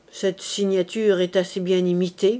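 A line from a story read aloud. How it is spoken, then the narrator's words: Muttering through teeth. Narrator (French): grommela-t-il entre ses dents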